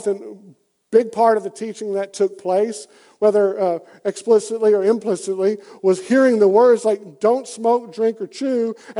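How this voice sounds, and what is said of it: Deep Southern US accent. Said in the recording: “as you can tell by my accent, in the pretty deep South.”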